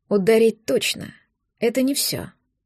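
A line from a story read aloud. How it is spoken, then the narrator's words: Dry, curt. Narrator (Russian): сказал сухо Лёша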